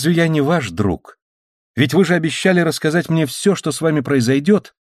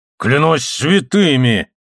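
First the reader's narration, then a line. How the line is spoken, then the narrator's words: Angry exclamation. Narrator (Russian): злобно воскликнул Гонзалес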